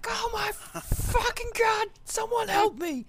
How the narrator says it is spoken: is just screaming

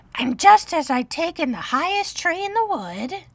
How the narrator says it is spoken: continued the pigeon, raising his voice to a shriek

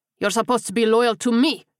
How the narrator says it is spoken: he roared

